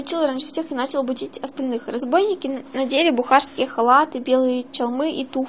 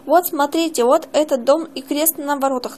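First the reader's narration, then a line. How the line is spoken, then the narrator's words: Plain. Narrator (Russian): наконец сказал он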